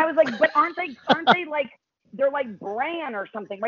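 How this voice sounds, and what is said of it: Usual voice. Nothing is said of it.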